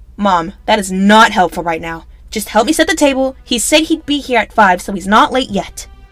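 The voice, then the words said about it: Yelling, stressed voice. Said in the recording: “why are you yelling?”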